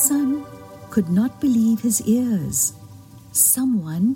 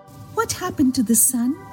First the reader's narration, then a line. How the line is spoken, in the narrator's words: cried the plants on earth